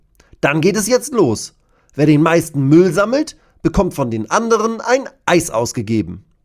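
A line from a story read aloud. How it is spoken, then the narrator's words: Calling out. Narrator (German): ruft Bascho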